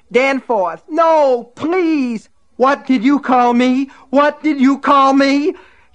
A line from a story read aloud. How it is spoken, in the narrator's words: He screamed it over and over again